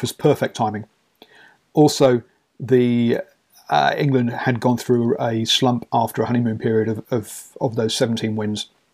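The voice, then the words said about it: English accent. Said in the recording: “I am English, if you can't tell by the accent.”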